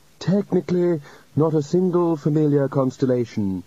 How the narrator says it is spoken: said the chair in indefinite studies frantically

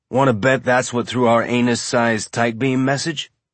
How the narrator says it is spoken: Amos said

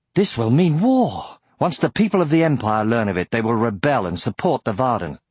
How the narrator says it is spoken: Glowering, Aragorn exclaimed

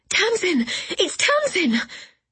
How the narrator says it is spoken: gasps

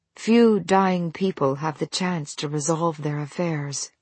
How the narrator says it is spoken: Ehuru said, keeping his tone neutral

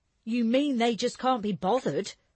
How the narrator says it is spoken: Jessie snapped

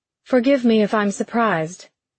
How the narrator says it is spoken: Corianne replied, doing her best to keep her voice even

